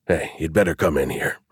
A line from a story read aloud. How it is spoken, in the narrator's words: whispered